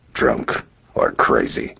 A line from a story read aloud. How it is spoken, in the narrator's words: muttered Bartram to himself